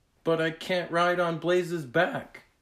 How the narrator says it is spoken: Skyla cried

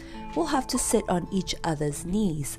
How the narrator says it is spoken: said Joe, and giggled at the sight of so many people in Moonface's little tree room

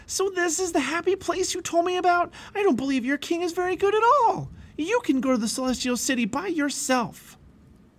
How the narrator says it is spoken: Pliable screamed

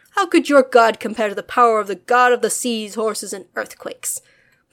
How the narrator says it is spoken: Poseidon laughed, and the earth rumbled

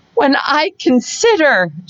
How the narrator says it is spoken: she added in a yet more agitated voice

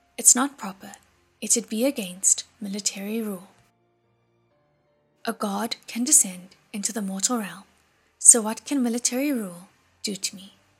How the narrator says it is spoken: Mu Cheng also said in a flat voice

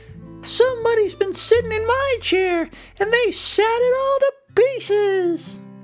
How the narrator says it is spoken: In a voice somewhere between a squeak and a squeal, Baby Bear said

